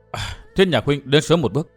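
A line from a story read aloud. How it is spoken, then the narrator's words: Soft sighing voice. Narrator (Vietnamese): Nàng thở dài khẽ nói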